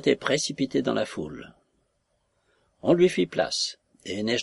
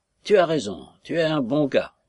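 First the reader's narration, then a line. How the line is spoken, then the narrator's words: Thunderous bellow. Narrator (French): brailla-t-il d'une voix de tonnerre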